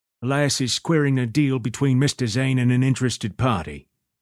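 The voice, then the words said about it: Thick English accent. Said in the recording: “The man spoke with a thick English accent.”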